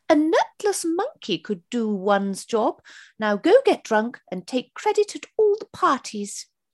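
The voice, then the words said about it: Impression of the Queen. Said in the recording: “in the style of Her Majesty ... That's a quite good impression”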